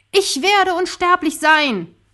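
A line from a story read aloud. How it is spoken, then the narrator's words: Shouted skyward. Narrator (German): schrie in den Himmel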